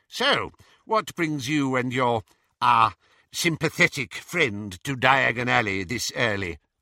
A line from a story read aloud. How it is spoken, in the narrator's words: asked Travers